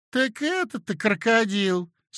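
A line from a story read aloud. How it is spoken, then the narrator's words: Regretful singsong. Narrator (Russian): сказала Елена Ивановна голосом сожаления нараспев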